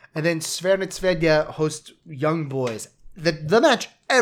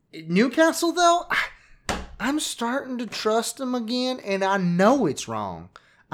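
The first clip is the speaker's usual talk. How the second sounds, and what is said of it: Southern US accent. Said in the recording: “everything's going to a southern accent”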